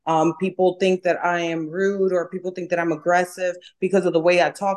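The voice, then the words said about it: New York accent. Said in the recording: “I'm from New York, I have an accent.”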